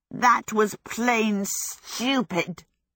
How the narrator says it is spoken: Calcifer sputtered

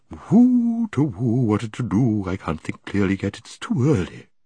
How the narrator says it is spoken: The bird muttering to itself

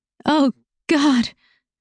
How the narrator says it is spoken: I cried out as wave after wave of pleasure washed over me

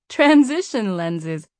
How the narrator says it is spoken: Janelle replied with a laugh

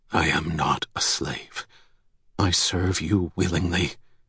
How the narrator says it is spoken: She muttered under her breath

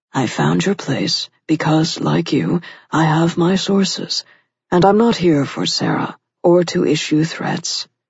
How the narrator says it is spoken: Rick said in a calm, placating tone of voice

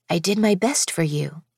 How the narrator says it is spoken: Silas said quietly

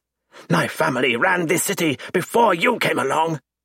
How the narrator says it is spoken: he roars

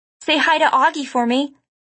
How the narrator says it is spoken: I called out

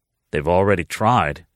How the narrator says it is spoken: he replied dryly

